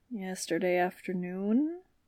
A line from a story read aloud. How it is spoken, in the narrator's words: she mumbled